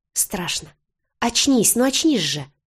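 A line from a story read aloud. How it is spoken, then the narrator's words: Hysterical exclamation. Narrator (Russian): Воскликнула в истерике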